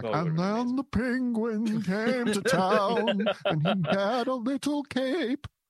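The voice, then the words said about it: Sung imitation of another person's voice. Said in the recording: “your Bowie impression singing about the little penguin boy”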